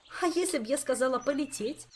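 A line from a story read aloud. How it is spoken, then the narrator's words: Laughing. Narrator (Russian): рассмеялась Кира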